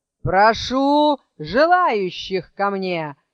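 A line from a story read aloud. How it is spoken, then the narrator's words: Loud shouting. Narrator (Russian): громко выкрикивал Кощей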